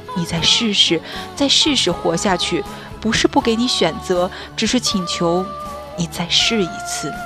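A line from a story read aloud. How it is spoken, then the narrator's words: Repeated murmuring. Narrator (Chinese): 一遍又一遍喃喃地说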